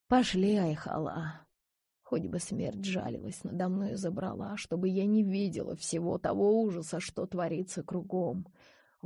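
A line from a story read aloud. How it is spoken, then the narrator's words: Breathed out. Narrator (Russian): выдохнула Карима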